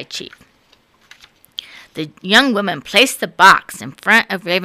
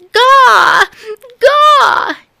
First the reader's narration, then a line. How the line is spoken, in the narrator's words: cried and cried